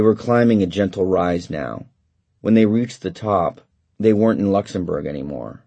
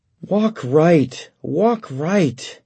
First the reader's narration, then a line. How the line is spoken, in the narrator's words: Weary cried out sobbingly